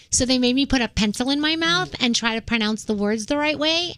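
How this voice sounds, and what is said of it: New York accent. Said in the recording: “my New York accent ... the New York accent's what got me my job ... because of your accent”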